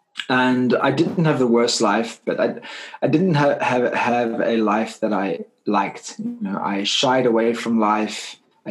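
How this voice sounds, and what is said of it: South African accent. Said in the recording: “As you can hear my accent, I'm not from the UK.”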